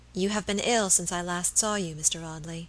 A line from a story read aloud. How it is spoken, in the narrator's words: she said in a low voice that had the same melodious sadness as the notes of the old organ under her touch